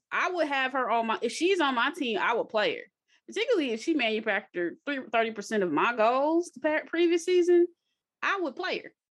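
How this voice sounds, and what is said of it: Country accent. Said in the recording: “it's so country ... my country accent”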